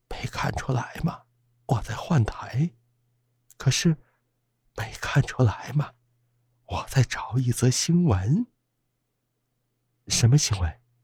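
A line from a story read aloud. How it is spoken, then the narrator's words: Trembling question. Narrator (Chinese): 柳梅颤抖着问道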